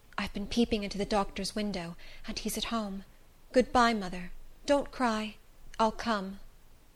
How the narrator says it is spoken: He whispered in my ear

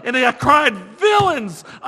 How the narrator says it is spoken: I shrieked

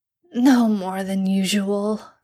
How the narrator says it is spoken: Sam wheezes

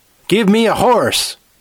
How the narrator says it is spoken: screamed

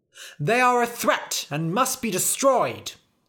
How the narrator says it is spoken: cried the knights

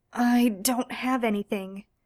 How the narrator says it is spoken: Misha gasped

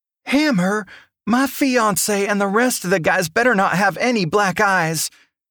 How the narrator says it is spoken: Evelyn Beaumont shouted

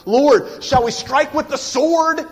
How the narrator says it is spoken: one of them shouted out, we know it was Peter

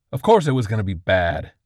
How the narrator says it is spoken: Dibbleman snapped

